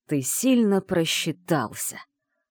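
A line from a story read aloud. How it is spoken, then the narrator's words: Deep furious male growl. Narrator (Russian): прорычал мужчина глубоким, вибрирующим от ярости голосом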